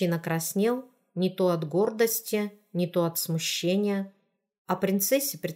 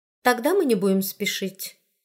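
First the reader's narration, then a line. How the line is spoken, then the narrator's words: Plain. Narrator (Russian): сказала она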